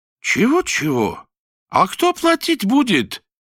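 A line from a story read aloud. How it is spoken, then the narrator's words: Indignant. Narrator (Russian): возмущенно вскинул вверх указательный палец Руфат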